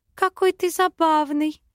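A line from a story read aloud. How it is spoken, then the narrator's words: Babbling girl. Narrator (Russian): лепетала девушка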